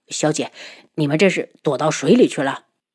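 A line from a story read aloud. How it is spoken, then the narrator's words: Hurried worried speech. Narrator (Chinese): 负责人急忙过来，担忧的道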